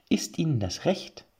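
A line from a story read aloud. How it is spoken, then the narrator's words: Plain. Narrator (German): fragte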